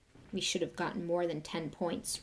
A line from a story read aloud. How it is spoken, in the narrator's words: Ron grumbled